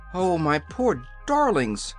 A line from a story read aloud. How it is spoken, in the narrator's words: cried the Queen, with a sob of anguish